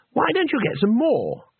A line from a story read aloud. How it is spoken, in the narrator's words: said Twoflower, brightly